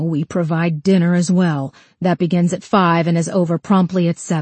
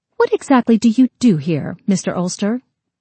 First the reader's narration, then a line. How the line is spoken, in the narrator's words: Her tone was curt when she asked